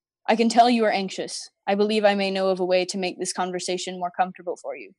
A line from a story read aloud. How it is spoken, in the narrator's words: he said